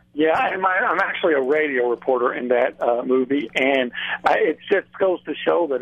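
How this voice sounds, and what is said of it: Country Texas accent. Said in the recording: “if you have a country Texas accent”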